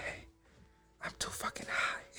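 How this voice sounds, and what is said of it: Whispering. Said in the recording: “I'm whispering like a dumbass”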